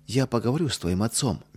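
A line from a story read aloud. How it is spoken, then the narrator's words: Gentle. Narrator (Russian): мягко сказала Ядвига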